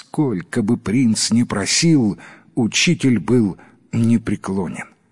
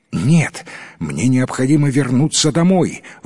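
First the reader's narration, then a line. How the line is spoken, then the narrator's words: Exclaimed. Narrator (Russian): воскликнул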